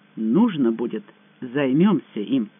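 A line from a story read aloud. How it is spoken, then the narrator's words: Calm promise. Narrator (Russian): спокойно пообещал Байдер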